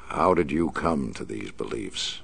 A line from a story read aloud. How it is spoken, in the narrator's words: the Batman asked